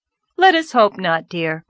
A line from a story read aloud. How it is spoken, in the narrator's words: said cheerfully